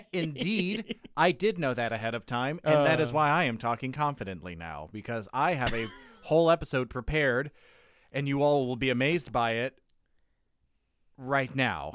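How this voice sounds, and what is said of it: Mock-confident presentation voice. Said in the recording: “That was my impression of myself in grade, middle, and high school on the day of a presentation.”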